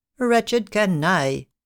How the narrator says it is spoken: replied he

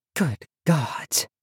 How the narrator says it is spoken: murmured Tandri

